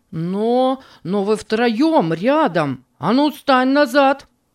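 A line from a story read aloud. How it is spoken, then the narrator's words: Angry shout. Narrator (Russian): Гневно закричал Рэй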